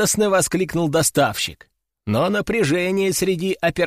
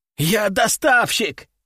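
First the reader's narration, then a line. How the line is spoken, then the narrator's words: Exclaimed. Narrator (Russian): воскликнул он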